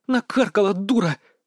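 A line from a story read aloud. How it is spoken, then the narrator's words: Hissing female voice. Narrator (Russian): зашипела Настя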